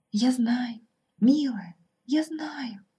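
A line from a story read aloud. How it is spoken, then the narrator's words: Tearful whisper. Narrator (Russian): шептала девушка, плача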